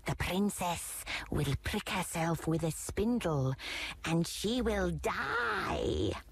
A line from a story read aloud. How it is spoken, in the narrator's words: she hissed